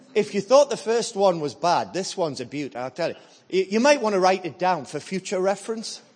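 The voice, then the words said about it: Northern English accent. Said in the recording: “You can tell I'm not, can't you? There's a northern accent”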